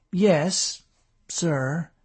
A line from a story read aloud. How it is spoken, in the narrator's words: David answered hesitantly